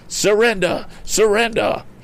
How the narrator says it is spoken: he cried

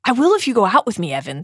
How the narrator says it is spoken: said James quickly

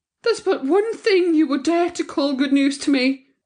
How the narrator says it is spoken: she cried

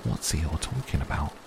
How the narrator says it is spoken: Piglet whispered to Pooh

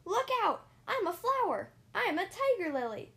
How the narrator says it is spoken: Peter yelling

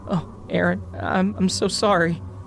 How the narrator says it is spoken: Rachel uttered through choking sobs

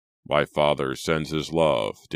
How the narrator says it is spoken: Daniel said stiffly

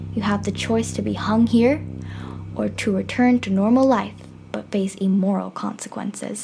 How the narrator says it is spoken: The monster says in a deep voice

